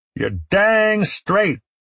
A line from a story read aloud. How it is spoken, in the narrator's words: the governor shouted in return